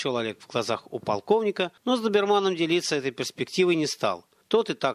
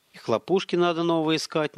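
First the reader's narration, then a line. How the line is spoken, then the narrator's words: Uncertain. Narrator (Russian): неуверенно добавил Доберман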